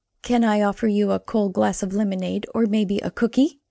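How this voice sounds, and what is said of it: Exaggeratedly cheery voice. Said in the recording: “in my best cheery voice,”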